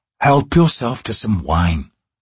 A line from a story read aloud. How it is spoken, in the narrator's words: Baruch murmured